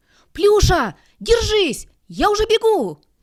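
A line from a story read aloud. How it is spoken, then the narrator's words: Shouting. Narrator (Russian): кричал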